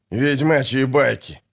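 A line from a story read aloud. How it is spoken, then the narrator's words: Scornful snort. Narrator (Russian): фыркнул Фиш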